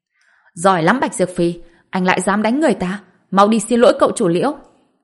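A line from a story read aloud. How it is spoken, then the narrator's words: Screaming woman. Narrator (Vietnamese): Lưu Tử Vân ... bà ta lập tức ... gào lên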